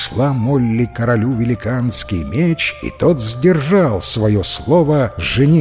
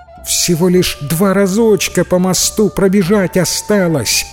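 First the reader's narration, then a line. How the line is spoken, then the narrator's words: Shouted reply. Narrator (Russian): крикнула в ответ девушка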